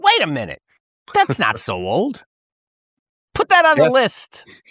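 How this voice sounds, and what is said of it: Imitates another person's voice. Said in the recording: “my best Bob Enyart impression, although I can't really pull off the New Jersey accent,”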